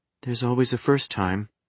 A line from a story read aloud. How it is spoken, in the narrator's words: she muttered